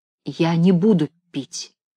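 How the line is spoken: Quiet answer. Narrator (Russian): ответил тоже тихо

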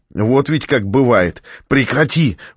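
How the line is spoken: Shouting. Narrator (Russian): выкрикнула Наталья

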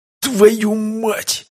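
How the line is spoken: Muffled pained groan. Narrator (Russian): глухо простонал мужчина, переломившись в поясе

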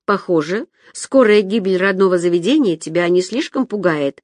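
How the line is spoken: Mumbled. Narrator (Russian): пробормотала я

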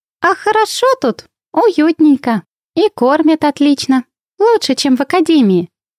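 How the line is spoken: Contented cooing. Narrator (Russian): довольно ворковала Винни

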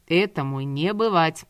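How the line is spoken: Grumbling. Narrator (Russian): пробурчал Давид

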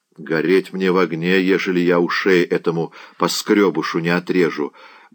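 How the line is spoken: Muttered under breath. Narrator (Russian): буркнул себе под нос Заглоба

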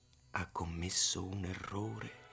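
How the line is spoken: Whispering. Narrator (Italian): mi sussurrò Utz

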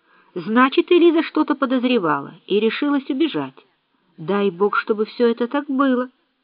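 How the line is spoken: Exclaimed. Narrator (Russian): Он воскликнул

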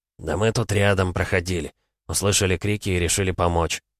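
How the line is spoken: Calm. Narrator (Russian): спокойно сказал

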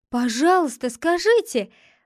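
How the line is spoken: Delighted exclamation. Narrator (Russian): воскликнул обрадованный Томми

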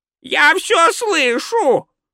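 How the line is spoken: Shriek. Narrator (Russian): провизжал Спольд

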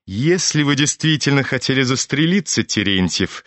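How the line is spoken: Laughing. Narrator (Russian): засмеялся Евгений Павлович

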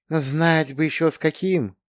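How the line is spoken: Muffled voice. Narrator (Russian): голос кота из-под панциря звучал глухо

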